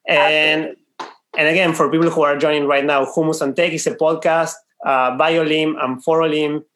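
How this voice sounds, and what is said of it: Argentinian accent. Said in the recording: “I think you might have heard from our accents.... We are from Argentina.”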